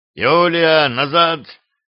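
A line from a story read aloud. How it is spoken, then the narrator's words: Menacing growl. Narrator (Russian): грозно рыкнул на женщину боярин Варлам Батов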